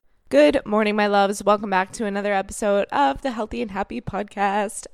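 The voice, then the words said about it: Raspy morning voice. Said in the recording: “I'm recording this super early in the morning, so if I sound like a raspy toad, that's why.”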